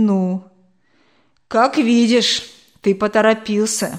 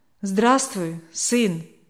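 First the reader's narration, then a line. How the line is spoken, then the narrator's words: Calm. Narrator (Russian): спокойно проговорил он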